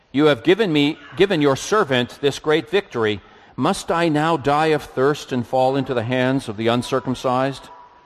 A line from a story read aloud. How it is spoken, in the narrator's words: Because he was very thirsty, he cried out